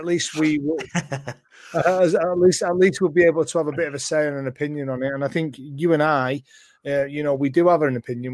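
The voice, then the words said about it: Salford English accent. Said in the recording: “Salfordian accent”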